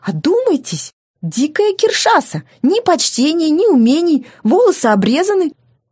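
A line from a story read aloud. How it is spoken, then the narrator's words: Near shrieking. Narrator (Russian): он почти визжал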